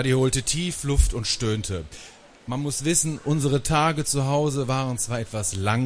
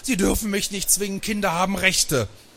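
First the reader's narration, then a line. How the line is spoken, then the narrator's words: Screaming. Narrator (German): der klammerte sich an die Lehne und schrie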